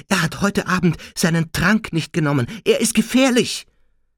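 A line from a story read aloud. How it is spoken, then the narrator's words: Gasping. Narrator (German): japste Hermine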